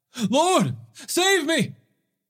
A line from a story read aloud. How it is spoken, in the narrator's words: beginning to sink, he cried out